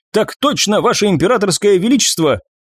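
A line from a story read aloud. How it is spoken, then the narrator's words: Barked military reply. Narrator (Russian): гаркнул стоявший на вытяжку Диас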